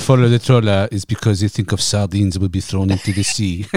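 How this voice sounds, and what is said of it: Put-on French accent. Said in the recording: “That is quality French accent.”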